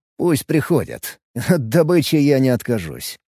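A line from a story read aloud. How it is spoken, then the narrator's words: Snorting remark. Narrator (Russian): хмыкнул Алекс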